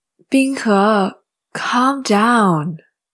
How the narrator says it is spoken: Shi Zun said, sighing

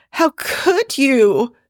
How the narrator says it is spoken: she warbles

